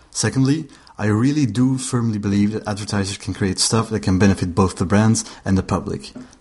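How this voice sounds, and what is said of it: Belgian accent. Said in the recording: “my accent ... I'm Belgian”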